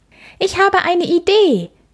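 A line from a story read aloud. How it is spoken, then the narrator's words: Calling out. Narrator (German): ruft Mia da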